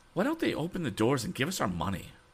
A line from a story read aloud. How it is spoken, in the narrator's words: cried one excited woman